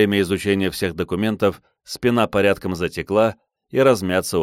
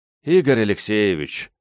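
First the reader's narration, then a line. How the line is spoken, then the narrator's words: Weary sigh. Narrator (Russian): устало вздохнул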